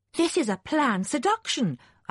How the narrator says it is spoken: exclaimed

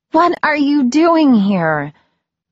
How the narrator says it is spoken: I exclaimed

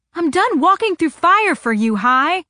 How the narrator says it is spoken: I yelled

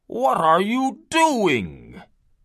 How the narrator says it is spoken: cried

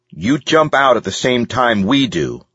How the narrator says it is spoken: ordered sternly

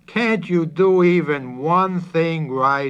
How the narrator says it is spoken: pleaded, turning beet red with vexation

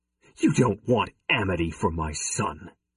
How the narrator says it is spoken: he spat

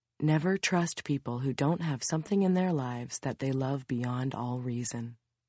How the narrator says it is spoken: Her mom whispers in her daughter's ear

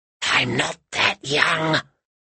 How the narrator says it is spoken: whispered Baba Yaga

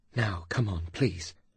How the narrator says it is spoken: she softly said to Carr

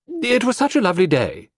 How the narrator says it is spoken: she exclaimed

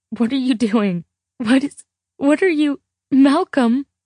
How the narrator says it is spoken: Laughing

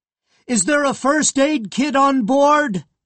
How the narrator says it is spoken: Jay shouted

